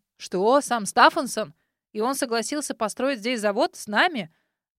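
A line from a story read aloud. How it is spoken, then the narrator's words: Two men roaring excitedly. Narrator (Russian): Одновременно взревели Чарльз и Джордж, не выдержав бури эмоций, переполняющих их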